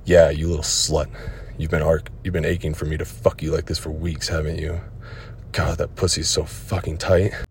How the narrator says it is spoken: I growled in her ear

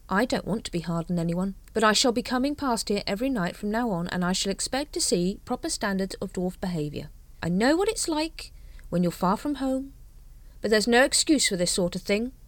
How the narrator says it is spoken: said Carrot kindly

